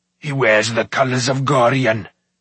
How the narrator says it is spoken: shouted Smoit

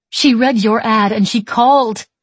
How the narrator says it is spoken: Maggie cries

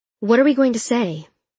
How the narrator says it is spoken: asked Martha

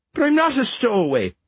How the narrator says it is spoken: Fergus pleaded

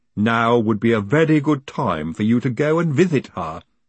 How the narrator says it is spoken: said Igor firmly

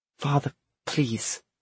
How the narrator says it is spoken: James said in a quiet voice

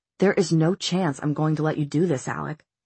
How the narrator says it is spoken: Jace said in a dangerous voice

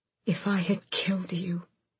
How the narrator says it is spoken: she hissed, but choked on the words, unable to finish the thought

